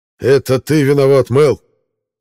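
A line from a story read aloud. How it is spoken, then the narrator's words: Shout. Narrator (Russian): крикнул Джейн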